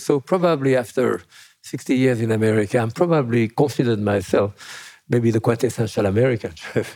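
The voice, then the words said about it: French accent. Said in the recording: “With a French accent.”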